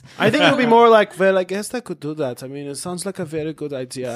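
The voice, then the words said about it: Put-on German accent. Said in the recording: “German. ... that was your first accent. So that's your impression”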